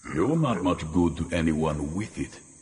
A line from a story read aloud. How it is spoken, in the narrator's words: Vaster grunted